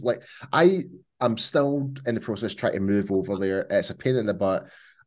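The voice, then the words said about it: Scottish accent. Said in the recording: “he has a fun accent ... I'm definitely Scottish”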